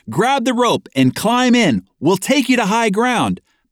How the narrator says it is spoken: the people inside yelled over a bullhorn

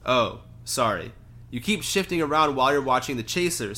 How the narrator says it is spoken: said Angelina

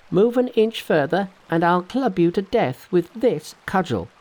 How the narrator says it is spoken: cried Monkey

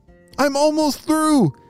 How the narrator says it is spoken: shouted Ralph back to his family

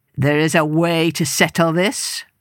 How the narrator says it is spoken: growled Line

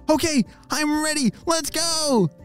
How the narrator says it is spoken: shouted Olly

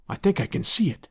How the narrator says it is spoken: whispered

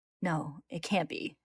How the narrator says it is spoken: mutters to himself as he picks up his pace, hurrying

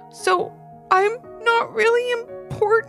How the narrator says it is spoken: asked Ivy between sobs

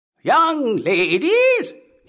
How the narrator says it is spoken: he cried

